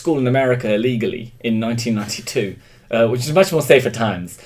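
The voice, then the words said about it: English accent. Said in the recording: “I was the only English kid in my in my in my in my town ... with this accent”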